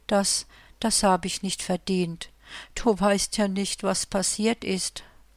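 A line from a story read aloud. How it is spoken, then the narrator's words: Trembling, tearful voice. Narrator (German): sagte, mit leicht zitternder Stimme und Tränen in den Augen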